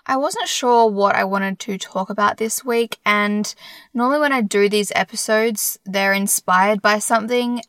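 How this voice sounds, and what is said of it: Slightly strange, congested voice. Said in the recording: “I have a cold. ... if my voice sounds a little bit strange”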